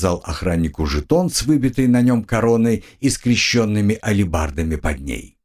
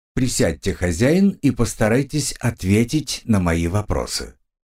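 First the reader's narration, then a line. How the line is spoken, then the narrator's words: Calm. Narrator (Russian): спокойно предложил прокурорский служащий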